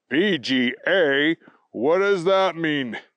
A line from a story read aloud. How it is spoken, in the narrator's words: the voice boomed out